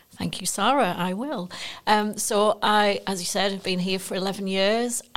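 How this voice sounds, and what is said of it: Northeast English accent. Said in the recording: “I'm from the northeast originally, as you can probably tell by the accent”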